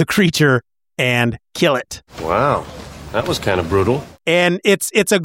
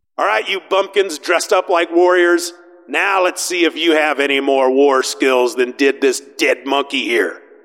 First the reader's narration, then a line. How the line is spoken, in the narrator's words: Conan shouts out